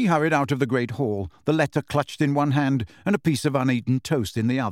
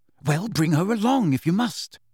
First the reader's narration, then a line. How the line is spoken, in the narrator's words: said Hermione urgently